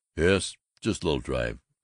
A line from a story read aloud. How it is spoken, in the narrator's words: he mumbled